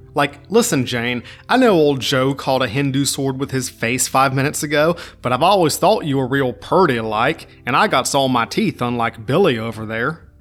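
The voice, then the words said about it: Put-on southern accent. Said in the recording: “I turned that into a southern accent ... My accent game is not always as strong as it could be”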